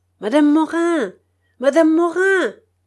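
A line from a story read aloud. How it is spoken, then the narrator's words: Shouting. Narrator (French): dit madame Cortis en criant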